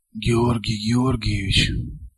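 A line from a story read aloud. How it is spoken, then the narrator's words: Muffled, hollow voice. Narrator (Russian): проговорил Елисей Юрьевич глухо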